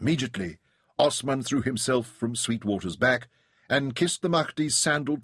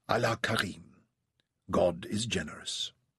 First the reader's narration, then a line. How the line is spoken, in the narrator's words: Muhammad Ahmed, the divine Mahdi, said softly